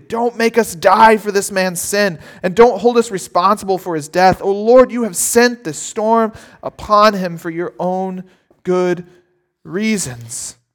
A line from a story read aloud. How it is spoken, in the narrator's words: they pleaded